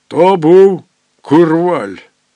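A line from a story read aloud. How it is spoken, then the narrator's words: Growling, robbed watchman. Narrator (Ukrainian): загарчав обікрадений сторож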